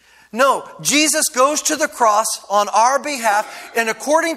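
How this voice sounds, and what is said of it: Usual voice. Nothing is said of it.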